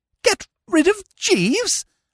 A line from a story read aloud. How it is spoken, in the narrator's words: I gasped